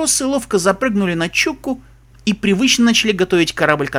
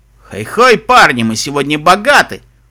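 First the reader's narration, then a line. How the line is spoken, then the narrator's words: Snort. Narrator (Russian): фыркнул Себастьян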